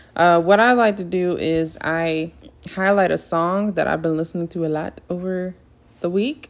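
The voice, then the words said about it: Southern accent. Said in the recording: “my southern accent is coming out today”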